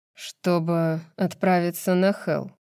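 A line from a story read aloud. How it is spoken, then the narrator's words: Impassive tone. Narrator (Russian): бесстрастным тоном закончил Ризант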